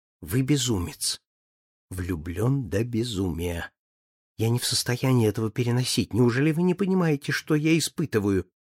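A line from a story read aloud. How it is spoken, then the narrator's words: Whisper behind fan. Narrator (Russian): Флора, полузакрывшись, им шепнула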